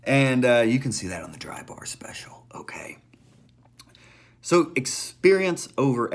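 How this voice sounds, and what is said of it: Usual voice. Nothing is said of it.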